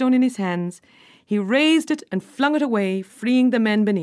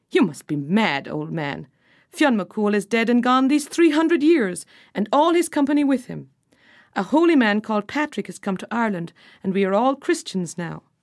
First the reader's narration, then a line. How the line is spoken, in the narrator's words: they laughed and said